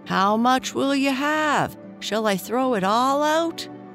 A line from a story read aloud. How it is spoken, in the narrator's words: Tom yelled out again